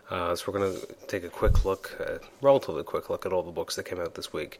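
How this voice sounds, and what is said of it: Sick, flu-affected voice. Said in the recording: “as you can probably tell in my voice, I was actually quite ill the last 4 or 5 days with a really bad case of the flu”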